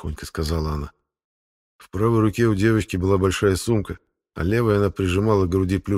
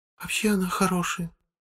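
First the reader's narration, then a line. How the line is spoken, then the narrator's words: Quiet whisper, young girl. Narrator (Russian): тихо прошептала девочка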